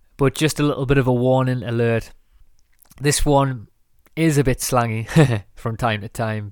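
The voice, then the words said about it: Northern English accent. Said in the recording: “from where I'm from in England, in the north of England ... I'm not saying that I ever want to lose the whole part of my accent”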